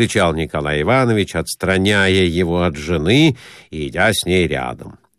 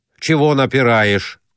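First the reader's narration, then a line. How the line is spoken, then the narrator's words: Old man shouting, demanding. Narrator (Russian): Старикашка уже кричал, требуя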